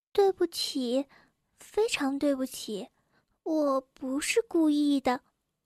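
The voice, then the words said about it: Very quiet, small voice. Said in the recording (Chinese): “用很小的声音说”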